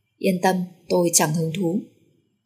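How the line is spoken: Cold faint smile. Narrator (Vietnamese): Trịnh Đông Quân cười nhạt

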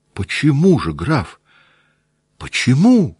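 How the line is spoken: Sudden involuntary near-cry. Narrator (Russian): Вдруг почти вскрикнула невольно

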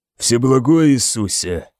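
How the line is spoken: Grumbling. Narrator (Russian): ворчал он

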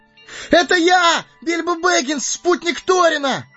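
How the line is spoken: Full-throated yell. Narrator (Russian): Заорал хоббит во всю глотку

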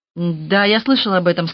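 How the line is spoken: Plain. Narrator (Russian): сказал Янус

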